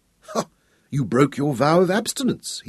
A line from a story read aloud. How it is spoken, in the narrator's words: chided her, laughing